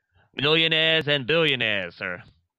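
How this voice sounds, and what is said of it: Terrible put-on accent. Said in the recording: “I did a terrible Kennedy accent there”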